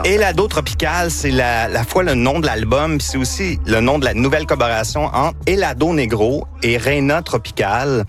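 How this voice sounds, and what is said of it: Quebec French accent from Victoriaville. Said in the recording (French): “Gina sourit à cause de mon accent. ... c'est mon accent de Victoriaville.”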